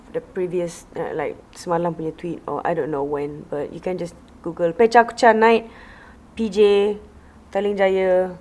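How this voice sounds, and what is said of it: Hoarse, strained voice. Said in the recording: “I sound like I'm losing my voice”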